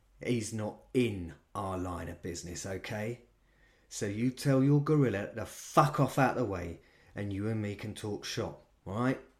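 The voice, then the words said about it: London accent. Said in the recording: “He had a London accent, even though he'd travelled extensively in his life ... his voice had settled right back into its native timbre”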